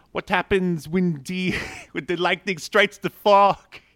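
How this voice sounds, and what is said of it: Halle Berry impression, near-Jamaican accent. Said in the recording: “I'm just making fun of Halle Berry. ... Yours almost turned into a Kofi Kingston Jamaican accent.”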